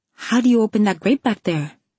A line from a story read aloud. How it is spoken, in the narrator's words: He laughed, looking pleased with himself